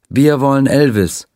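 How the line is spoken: Crowd chanting in unison. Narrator (German): die Menge rief im Chor

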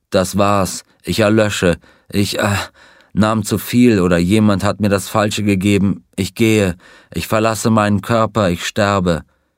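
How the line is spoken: Groaning. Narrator (German): Er stöhnte

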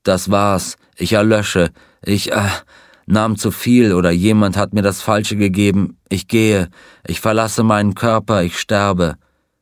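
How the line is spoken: Groaning. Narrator (German): Er stöhnte

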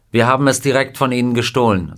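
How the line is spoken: Plain. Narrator (German): sagte Scotty

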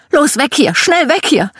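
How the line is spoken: Screaming. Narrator (German): Meine Mom schrie

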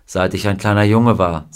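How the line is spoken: Plain. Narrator (German): sagte er ihr

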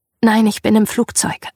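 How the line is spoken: Plain answer. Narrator (German): antwortete ich

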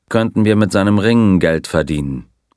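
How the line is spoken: Dry remark. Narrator (German): bemerkte der Colonel trocken

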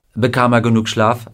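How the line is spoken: Plain question. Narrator (German): fragte Gardner

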